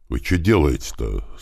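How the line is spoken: Plain question. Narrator (Russian): спросил Славка

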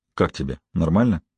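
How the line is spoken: Quiet question. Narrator (Russian): Я тихонько спросил Холли

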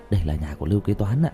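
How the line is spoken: Quiet voice. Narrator (Vietnamese): nhỏ giọng

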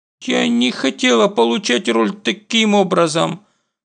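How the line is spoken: Mumble. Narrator (Russian): мямлит Инджон

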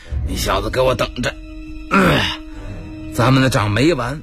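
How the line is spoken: Hoarse voice. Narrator (Chinese): 这昆山呢沙哑个嗓子

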